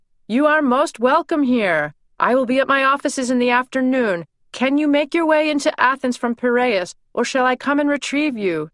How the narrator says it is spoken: he shouted

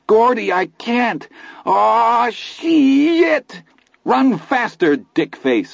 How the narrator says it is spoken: I bellowed, and I was enjoying this

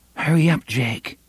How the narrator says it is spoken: Susanna murmured

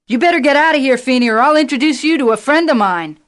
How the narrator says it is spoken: Howard yelled back

